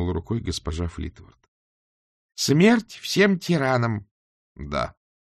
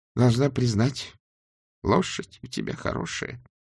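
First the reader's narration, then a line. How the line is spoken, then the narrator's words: Trembling voice. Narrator (Russian): дрожащим голосом сказала госпожа Флитворд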